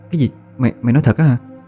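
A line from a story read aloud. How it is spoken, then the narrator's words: Astonished stammering question. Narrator (Vietnamese): Tôi kinh ngạc, miệng lắp bắp hỏi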